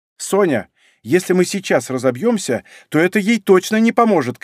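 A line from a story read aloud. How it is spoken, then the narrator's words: Woman shouting. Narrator (Russian): кричала женщина, сидевшая рядом с Соней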